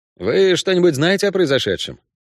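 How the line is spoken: Question in unchanged tone. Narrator (Russian): спросил Ламберт прежним тоном

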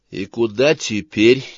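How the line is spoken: Unnaturally calm question. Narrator (Russian): неестественно спокойно спросила Лана

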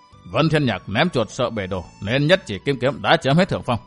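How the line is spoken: Lowered voice. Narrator (Vietnamese): Tinh Viên hạ giọng

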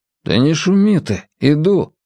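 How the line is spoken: Muffled reply from hatch. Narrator (Russian): глухо ответил он из черной дыры люка

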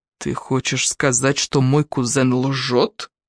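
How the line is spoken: Growled. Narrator (Russian): зарычал

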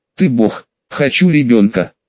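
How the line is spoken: Sighing. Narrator (Russian): Вздохнула Дось

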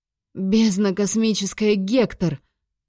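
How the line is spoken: Hurt moan. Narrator (Russian): Обиженно простонала она

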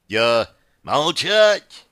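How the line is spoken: Barked. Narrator (Russian): рявкнул Гриценко

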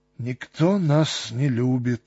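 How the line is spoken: Sighing. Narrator (Russian): вздохнул

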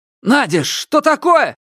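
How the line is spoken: Agitated exclamation. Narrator (Russian): взволнованно вскричал Панютин

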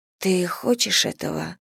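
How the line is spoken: Whispered. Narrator (Russian): прошептала я

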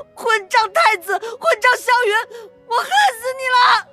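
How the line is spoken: Sobbing, barely intelligible. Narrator (Chinese): 他哭得嚎啕，连话都说不清楚

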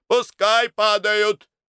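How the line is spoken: Shouting. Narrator (Russian): кричал Лапоть

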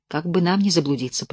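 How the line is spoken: Doctor muttering. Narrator (Russian): пробормотал доктор

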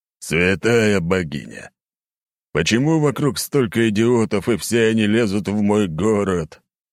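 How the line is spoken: Doomed groan. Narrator (Russian): обреченным голосом простонал Михаил Юрьевич

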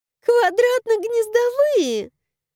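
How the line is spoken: Laughing. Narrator (Russian): рассмеялась Ирша

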